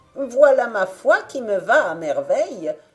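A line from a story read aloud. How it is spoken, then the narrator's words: Joyful surprised exclamation. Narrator (French): s'écria-t-elle avec une joyeuse surprise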